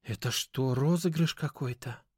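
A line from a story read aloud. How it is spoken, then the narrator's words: Quiet, fully awake. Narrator (Russian): Тихо и уже совсем не сонно проговорила Аня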